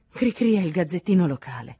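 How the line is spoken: Sighing explanation. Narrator (Italian): spiegò con un sospiro

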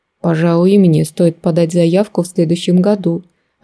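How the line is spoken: Approving mutter. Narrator (Russian): одобрительно пробурчал папа себе под нос

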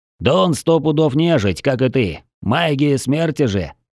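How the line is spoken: Slightly growling reply. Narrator (Russian): ответил ему слегка рычащий второй голос

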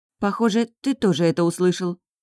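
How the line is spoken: Grim statement. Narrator (Russian): мрачно констатировала я

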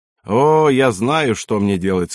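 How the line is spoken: Plain. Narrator (Russian): сказал он

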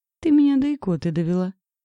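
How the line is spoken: Ringing laughter. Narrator (Russian): Звонко засмеялась

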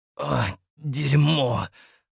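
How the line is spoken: Hissed. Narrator (Russian): прошипел

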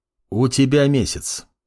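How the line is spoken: Calm. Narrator (Russian): спокойно произнес Амор

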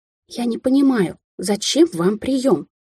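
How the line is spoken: Hiss. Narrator (Russian): зашипела Кэтлин

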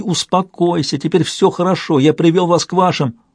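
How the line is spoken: Shouted. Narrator (Russian): Керф кричал ей

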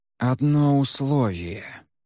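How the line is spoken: Slow, measured. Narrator (Russian): медленно заговорил моряк, взвешивая каждое слово

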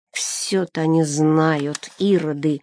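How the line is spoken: Grumbling under breath. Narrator (Russian): ворчал себе под нос отец Теофил

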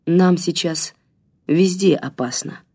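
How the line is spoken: Plain. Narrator (Russian): сказала она

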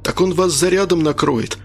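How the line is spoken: Exclamation. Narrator (Russian): воскликнул Арцебашев

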